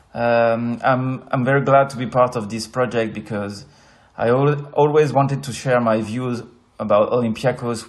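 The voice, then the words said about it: French accent. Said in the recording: “As you may notice with my accent, I'm a French guy”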